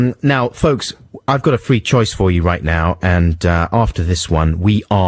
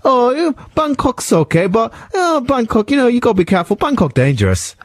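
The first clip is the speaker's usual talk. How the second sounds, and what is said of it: Put-on Thai accent. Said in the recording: “That was good accent I did there as well... It was very realistic... That's the actual accent they have in Bangkok”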